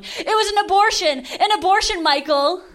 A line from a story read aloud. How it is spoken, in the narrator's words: I'm a really dramatic person, screaming into my phone